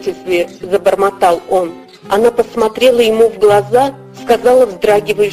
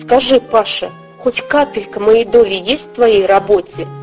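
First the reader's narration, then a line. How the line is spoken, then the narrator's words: Sudden timid question. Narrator (Russian): Мария Петровна вдруг спросила робко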